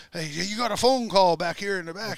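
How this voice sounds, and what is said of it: Imitated heavy French accent. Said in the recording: “he's talking in his big French accent”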